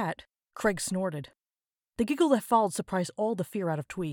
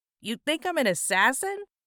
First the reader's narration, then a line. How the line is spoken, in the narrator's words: Even when laughing, his voice was still nasally and near monotonous